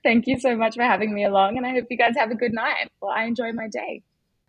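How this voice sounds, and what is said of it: Distinctive foreign accent. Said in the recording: “what a great accent”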